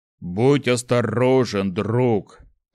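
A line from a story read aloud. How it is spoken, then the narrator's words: Grumbled with faint smirk. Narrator (Russian): пробурчал Шухрак, едва заметно усмехнувшись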